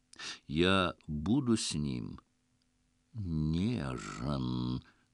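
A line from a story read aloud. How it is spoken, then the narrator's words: Languid lion purr. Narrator (Russian): томно промурлыкал лев, потягиваясь, как огромный мартовский кот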